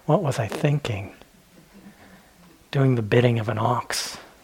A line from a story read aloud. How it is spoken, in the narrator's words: he starts muttering to himself, and he's wondering